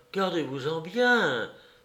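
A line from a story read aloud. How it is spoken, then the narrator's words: Exclaimed. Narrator (French): s'écria la bonne dame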